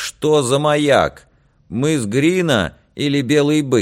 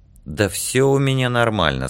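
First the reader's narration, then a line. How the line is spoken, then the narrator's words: Plain. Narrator (Russian): сказал Яр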